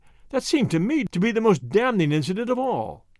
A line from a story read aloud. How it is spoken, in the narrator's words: I cried